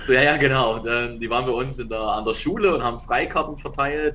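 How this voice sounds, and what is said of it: Regional German dialect. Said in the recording (German): “man hört's. man hört den Dialekt.”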